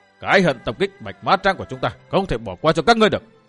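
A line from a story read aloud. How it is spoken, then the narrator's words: Two voices shouting loudly. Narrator (Vietnamese): cả hai quát to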